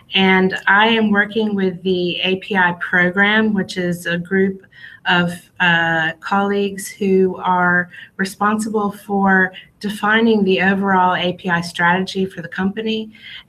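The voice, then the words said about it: American English accent. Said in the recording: “I'm originally from the United States, as you can hear from my voice.”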